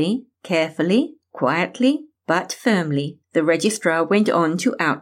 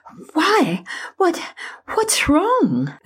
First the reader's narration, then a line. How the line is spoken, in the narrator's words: Amanda stammered, her heart pounding and her head spinning